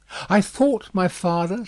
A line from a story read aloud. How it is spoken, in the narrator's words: said Lucy, excusing herself, with a pale face and in a faltering voice